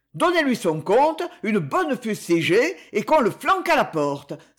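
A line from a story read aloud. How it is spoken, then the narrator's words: Exclaiming. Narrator (French): s'écria Alphonse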